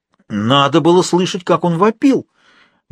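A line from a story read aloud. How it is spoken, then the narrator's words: Exclaiming. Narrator (Russian): воскликнула госпожа Контревель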